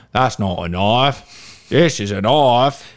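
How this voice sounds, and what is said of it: Put-on Australian accent. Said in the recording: “if you're gonna try and go into a Australian accent”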